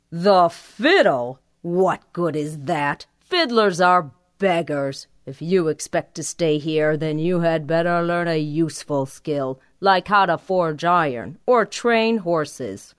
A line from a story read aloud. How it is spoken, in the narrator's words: his father scoffed